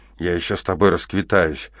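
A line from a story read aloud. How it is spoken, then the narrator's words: Trembling voice. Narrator (Russian): дрожащим голосом произнес Керш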